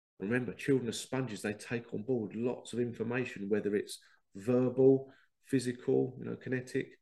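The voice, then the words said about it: Congested, bunged-up voice from cold. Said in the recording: “I've got a bit of a cold. ... So if I sound a bit bunged up”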